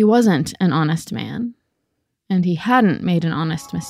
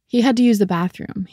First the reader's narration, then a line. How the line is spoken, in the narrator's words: he said